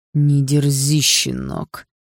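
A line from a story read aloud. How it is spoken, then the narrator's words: Father speaking through teeth. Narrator (Russian): процедил сквозь зубы отец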